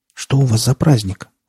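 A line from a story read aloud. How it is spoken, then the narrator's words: Timid. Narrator (Russian): робко спросила она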